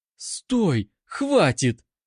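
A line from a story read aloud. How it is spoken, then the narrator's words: Shrill squeal, struggling. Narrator (Russian): взвизгнула Анка, дергаясь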